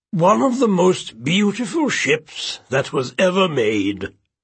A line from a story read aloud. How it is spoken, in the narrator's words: Admiral Lacker said solemnly